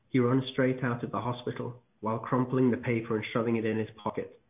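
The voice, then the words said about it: British accent. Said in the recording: “And I love the accent... I'm just I'm just very British.”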